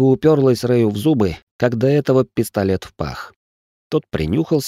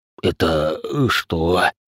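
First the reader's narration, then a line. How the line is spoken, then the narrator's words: Wheezed. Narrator (Russian): просипел бывший лейтенант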